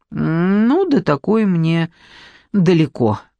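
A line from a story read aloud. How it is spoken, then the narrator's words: Sighed. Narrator (Russian): вздохнула Надежда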